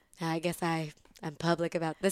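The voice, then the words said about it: Imitates another person's voice. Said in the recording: “Is my Kimmy Cattrall impression. ... It's really good.”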